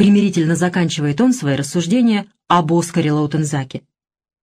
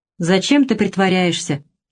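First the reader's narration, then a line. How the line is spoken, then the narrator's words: Gloomy reply. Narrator (Russian): мрачно отвечает КТ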